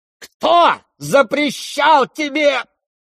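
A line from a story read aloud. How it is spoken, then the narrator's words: Frenzied shout. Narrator (Russian): неистово крикнула Лизавета Прокофьевна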